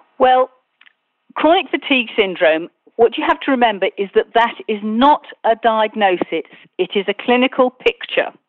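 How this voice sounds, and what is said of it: British accent. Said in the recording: “I love that British accent.”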